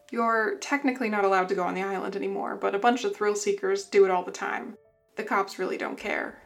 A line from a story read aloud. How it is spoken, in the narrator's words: chuckled